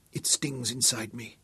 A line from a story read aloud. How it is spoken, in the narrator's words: she whispered